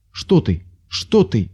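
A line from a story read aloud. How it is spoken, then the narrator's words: Frightened cry. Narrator (Russian): испуганно вскрикнул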